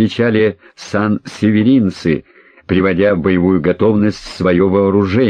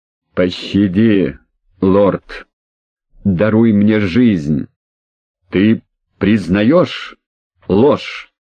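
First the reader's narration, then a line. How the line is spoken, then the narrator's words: Through gritted teeth. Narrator (Russian): цедил сквозь зубы Эдмунд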